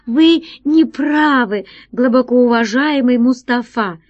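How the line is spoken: Exclaiming woman. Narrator (Russian): воскликнула она

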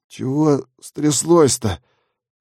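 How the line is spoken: Sleepy mumble. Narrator (Russian): сонно пробормотал Шипсдик

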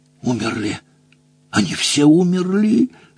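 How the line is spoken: Distant trembling moan. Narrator (Russian): стонал дрожащий голос из глубины клетки

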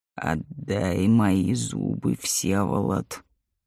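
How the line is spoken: Muffled hoarse voice. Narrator (Russian): глухой хриплый голос произнес

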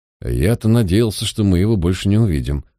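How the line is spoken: Muttering. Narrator (Russian): буркнул Ликон

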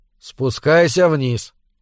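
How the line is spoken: Tired repetition. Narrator (Russian): устало повторил Буни

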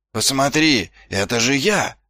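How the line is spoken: Roar. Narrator (Russian): проревел Ваймс

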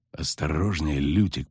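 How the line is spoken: Hissed. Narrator (Russian): прошипел ведьмак

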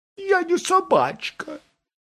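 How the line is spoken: Offended reply. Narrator (Russian): обиженно ответила голова Брике

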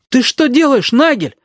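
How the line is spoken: Shout. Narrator (Russian): крикнул Галька

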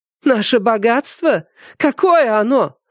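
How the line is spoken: Shrill squeal. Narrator (Russian): взвизгнула Сюй

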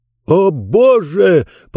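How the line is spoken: Shouted. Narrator (Russian): закричал Джонс

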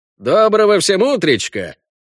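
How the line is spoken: Cheerful yet sleepy greeting. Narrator (Russian): бодро поздоровался заспанный Вася

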